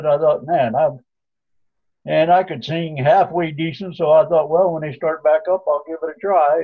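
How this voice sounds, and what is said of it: American accent, not Canadian-sounding. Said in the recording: “I love your accent. It doesn't sound very Canadian to me.”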